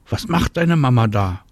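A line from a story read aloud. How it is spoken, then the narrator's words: Called out. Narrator (German): ruft Marie Anna zu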